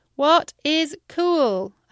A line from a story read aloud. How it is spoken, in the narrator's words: I shouted into the wind